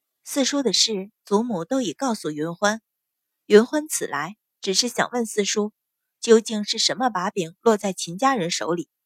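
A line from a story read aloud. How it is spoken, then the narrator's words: Soft. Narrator (Chinese): 阮云欢 轻声道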